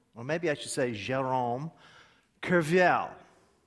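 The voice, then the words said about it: French name in Oklahoma accent. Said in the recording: “That's how an Okie speaks French. ... Okay, pretty sophisticated.”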